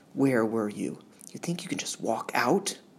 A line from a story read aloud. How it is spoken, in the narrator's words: Through clenched teeth, asked